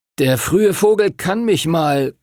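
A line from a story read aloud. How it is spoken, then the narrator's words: Tired, muffled through curtain. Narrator (German): kam es müde durch den Vorhang, hinter dem Timothy lag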